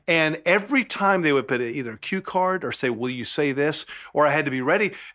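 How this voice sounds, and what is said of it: Southern American accent. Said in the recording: “Is my Southern accent too much?”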